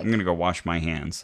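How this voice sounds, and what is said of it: Imitates another person's voice. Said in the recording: “That wasn't really him. I was doing his voice.”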